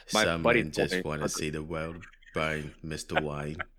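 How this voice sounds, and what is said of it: Bad imitation of another person's accent. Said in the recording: “That was a terrible accent... it's pretty terrible... in a Michael Caine accent”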